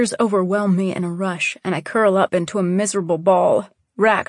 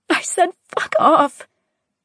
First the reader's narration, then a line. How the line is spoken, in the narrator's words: I yell, my voice cracking